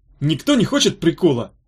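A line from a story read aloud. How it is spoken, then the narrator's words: Happy question. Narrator (Russian): радостно спросил он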